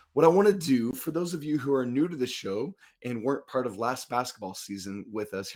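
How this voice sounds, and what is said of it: Worn, strained voice. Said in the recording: “my voice has gotten progressively worse as the week has gone on”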